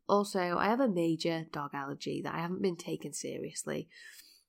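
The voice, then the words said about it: Congested voice with a cold. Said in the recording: “if you can't hear from my voice, I've had to edit this podcast so many times because I have been coughing. Literally, my voice has been cutting out ... now it's obviously coming out as a cold”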